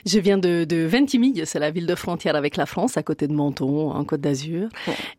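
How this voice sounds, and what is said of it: Italian accent speaking French, rolled R. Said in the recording (French): “À votre accent, on se doute bien... Vous êtes donc italienne... ça fait de nombreuses années que j'essaie de perdre mon R”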